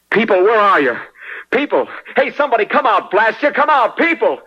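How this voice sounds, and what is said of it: Yelling loudly into empty streets. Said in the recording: “stop yelling ... at them”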